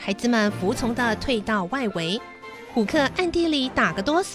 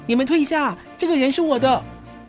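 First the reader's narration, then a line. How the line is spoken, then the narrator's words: Shouting. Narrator (Chinese): 彼得喊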